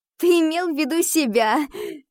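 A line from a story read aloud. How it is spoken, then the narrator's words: Laughing. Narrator (Russian): рассмеялась я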